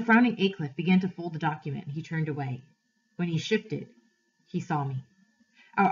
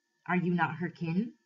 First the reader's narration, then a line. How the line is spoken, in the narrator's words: the stranger said